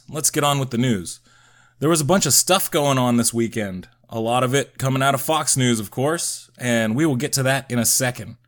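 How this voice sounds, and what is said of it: Stuffy, raspy sick voice. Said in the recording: “As you might be able to tell from my voice, I got sick ... please disregard my stuffy raspiness”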